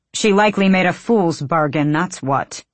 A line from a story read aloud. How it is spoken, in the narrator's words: Arisha snapped